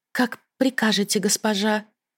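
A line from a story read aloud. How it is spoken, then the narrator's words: Hesitant, dejected voice. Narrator (Russian): Служанка замешкалась, но потом ответила сникшим голосом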